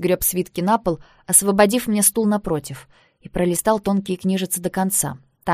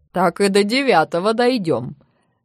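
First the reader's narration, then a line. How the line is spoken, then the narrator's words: Chuckling at own joke. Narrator (Russian): хохотнул мастер собственной незамысловатой шутки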